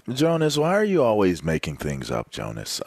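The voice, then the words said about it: Imitates another person's voice. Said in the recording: “you my best Brady impression? ... That was really good.”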